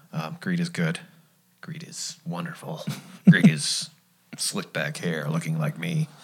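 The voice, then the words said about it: Gordon Gekko Wall Street character impression. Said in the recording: “my Wall Street impression ... Gordon Gecko impersonations”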